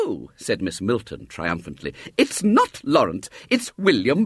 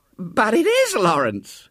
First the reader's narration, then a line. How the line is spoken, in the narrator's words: gasped Mrs